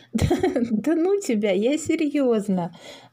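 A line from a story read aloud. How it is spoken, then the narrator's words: Laughing. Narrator (Russian): засмеялась мама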